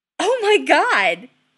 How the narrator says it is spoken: He exclaims

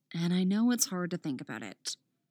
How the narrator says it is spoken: Dinah murmurs

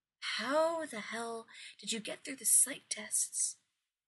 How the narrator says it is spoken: John says softly

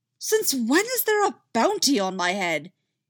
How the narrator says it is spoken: he shouted

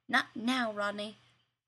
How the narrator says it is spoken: Carson snapped, voice tight

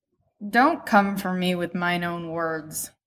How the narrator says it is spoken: he grumbles

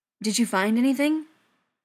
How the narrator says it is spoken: Ryan asked sharply

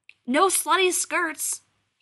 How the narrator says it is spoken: he yells after her

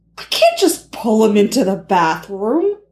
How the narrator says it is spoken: Steve answered in a scandalized tone

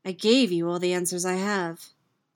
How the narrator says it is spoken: says evenly

